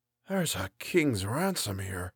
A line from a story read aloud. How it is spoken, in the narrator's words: Gallagher whispered